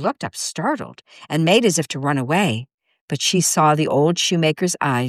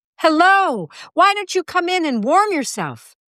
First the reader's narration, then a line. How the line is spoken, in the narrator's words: Suddenly he called out